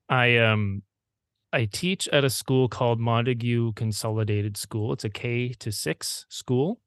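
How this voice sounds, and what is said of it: Canadian Prince Edward Island accent. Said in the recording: “i'm in prince edward island which is a island off the east coast of uh, canada you can probably tell by my accent”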